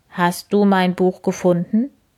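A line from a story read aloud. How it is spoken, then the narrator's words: Plain. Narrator (German): fragt sie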